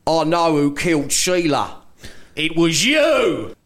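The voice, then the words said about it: Put-on Australian accent, dramatic. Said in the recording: “I'm going to try and do an Australian accent here as well.”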